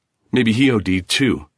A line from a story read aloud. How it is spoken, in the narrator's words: he added bitterly